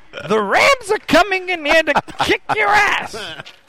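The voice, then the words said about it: Imitates another person's voice. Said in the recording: “Gilbert Gottfried ... are you squinting your eyes and cheesing like as hard as you can? Because I think that helps the impression”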